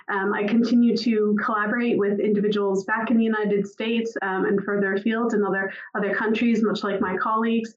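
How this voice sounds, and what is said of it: American accent, Boston area. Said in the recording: “you can tell from my accent, I'm not native to Aberdeen. I was born just outside of Boston, Massachusetts.”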